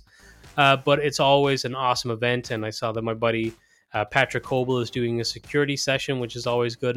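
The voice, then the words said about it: Worn, hoarse sore-throat voice. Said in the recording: “my voice is pretty worn this week. I have strep throat ... regardless of how it sounds. So apologies for your ears”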